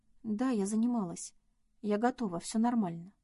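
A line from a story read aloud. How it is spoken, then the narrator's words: Even, steady reply. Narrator (Russian): ровным голосом ответила Надя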